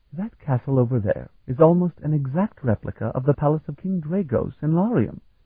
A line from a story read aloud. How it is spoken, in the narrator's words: he exclaimed